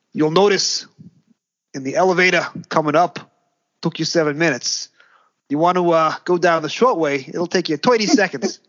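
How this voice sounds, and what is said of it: Old-fashioned American tour guide accent. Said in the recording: “the Empire State Building tour guide's accent is the most realistic American accent ever done on this show... That was the accent that my elderly relatives would have had, who were born in the States and were alive in the 60s”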